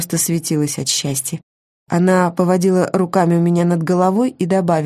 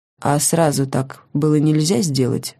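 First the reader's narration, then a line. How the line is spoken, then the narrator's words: Dry question, maniac. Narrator (Russian): сухо спросил маньяк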